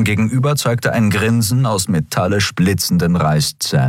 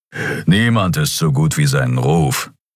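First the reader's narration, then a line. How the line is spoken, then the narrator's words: Growl. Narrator (German): knurrte Keru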